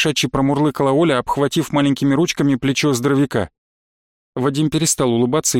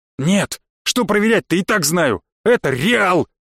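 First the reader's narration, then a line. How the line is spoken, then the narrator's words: Angry shout. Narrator (Russian): Крикнул я зло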